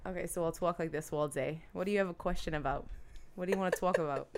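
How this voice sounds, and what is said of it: Put-on New Jersey accent. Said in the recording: “should I impersonate ... an ... Jersey ... Girl?”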